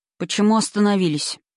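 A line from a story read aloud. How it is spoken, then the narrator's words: Weary question. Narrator (Russian): спросил адмирал устало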